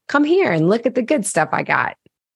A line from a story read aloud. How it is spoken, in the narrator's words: I eagerly opened the door and said to Jason